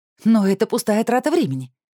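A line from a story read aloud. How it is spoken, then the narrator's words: Indignant declaration. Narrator (Russian): заявила я возмущенно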